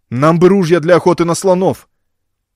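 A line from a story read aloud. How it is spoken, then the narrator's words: Excited rapid chatter. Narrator (Russian): Пигмеи взволнованно затараторили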